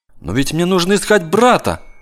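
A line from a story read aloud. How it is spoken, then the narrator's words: Boy's exclamation. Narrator (Russian): воскликнул мальчик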